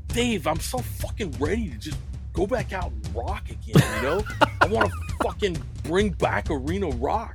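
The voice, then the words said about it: Imitates another person's voice. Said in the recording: “you got that dude down good ... a Lars impersonation”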